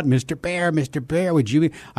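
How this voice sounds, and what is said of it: Little duck voice, Yakky Doodle. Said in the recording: “this little duck named Yakky Doodle ... that voice, that little duck ... this little little voice”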